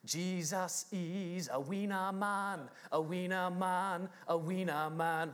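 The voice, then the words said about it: Sings in a put-on foreign accent. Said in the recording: “I'm going to do the accent ... I don't think I can actually communicate the words without the accent”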